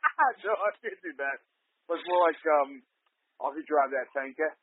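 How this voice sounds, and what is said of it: Usual voice. Nothing is said of it.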